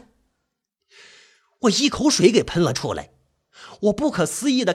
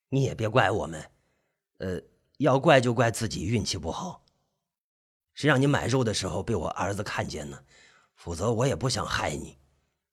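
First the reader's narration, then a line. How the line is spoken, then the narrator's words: Sighing. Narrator (Chinese): 他叹着气，开口了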